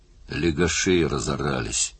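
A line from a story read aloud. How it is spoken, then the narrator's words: Calm reply. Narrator (Russian): ответил Крэндал по-прежнему спокойно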